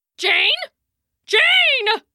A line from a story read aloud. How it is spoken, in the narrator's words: bellowed, but his barks were lost in the trees